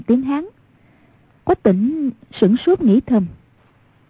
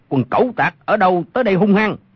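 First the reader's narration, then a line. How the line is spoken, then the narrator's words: Shout from the darkness. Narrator (Vietnamese): Trong bóng tối có một người quát lên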